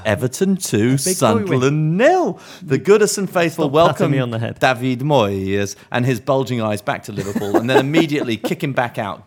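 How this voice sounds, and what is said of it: Patronising voice. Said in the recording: “put on my patronising voice”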